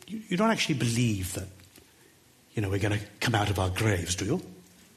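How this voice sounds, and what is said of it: Put-on Welsh accent. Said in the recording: “This is my effort at a Welsh accent.”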